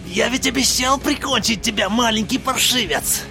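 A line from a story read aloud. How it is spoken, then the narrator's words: Hissed near ear. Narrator (Russian): прошипел над ухом у Джейка чей-то голос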